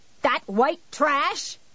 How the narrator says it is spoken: she nearly shrieked

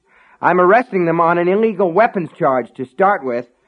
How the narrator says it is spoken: Norris yelled furiously

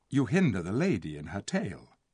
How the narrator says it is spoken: said Tyrion softly

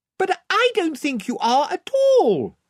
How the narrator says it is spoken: said Lucy, shouting to make herself heard

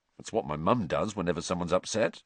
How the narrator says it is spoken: Ron muttered, shrugging

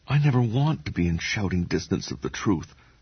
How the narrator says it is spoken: Kevin whispered

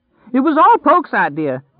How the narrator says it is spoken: he screamed

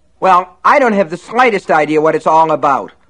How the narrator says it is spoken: Lester shouted

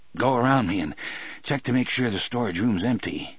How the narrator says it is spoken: I gasped to Harry

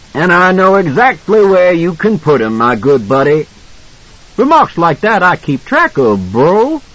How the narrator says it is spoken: Masterton grinned widely, and yelled back

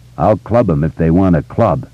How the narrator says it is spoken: Belch said and chuckled

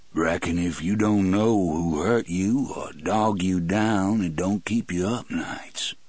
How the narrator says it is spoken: John Coffey said in his almost southern voice

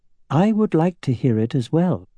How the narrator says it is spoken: said Islanzadi in a kinder tone

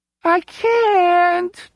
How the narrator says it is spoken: Tyler whines

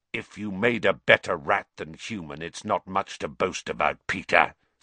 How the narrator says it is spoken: said Black harshly

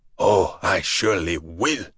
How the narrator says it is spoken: he rasped

